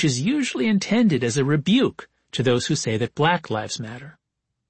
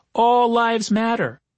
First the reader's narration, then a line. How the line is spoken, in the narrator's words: Someone in the crowd shouted